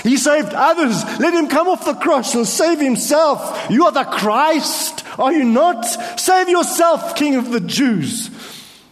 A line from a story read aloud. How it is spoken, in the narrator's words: them shouts